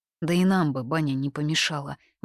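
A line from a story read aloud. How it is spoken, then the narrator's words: Sigh. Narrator (Russian): вздохнула Хань-И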